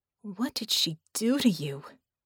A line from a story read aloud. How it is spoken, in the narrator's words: Vicky breathed